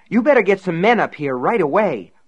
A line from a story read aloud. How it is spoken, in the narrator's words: cried